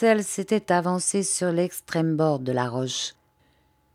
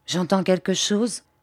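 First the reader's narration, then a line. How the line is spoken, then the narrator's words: Quavering voice. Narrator (French): dit Bobby d'une voix qui chevrota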